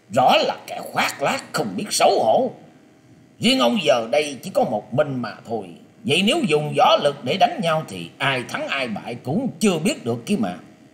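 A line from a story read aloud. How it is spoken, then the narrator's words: Furious, harsh voice. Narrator (Vietnamese): Lôi Minh Tiêu nghe thế thì trong lòng lửa giận cháy bừng bừng, gằn giọng nói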